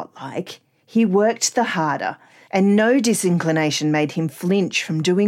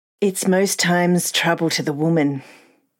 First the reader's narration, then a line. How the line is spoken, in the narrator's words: Ria answered, sighing